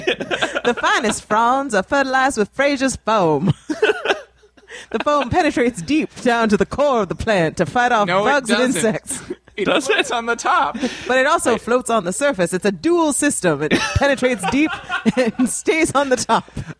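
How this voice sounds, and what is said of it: Put-on accent, sales pitch. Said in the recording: “she did an accent.”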